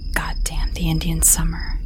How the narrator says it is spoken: the officer muttered

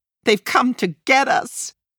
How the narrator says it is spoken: My sister cries frantically

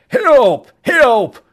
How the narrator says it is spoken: Chow yelled

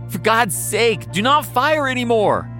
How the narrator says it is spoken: Delegate Cutler pleads

